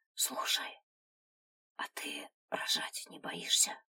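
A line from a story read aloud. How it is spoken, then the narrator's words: Whispered question. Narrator (Russian): шепотом спросила Женя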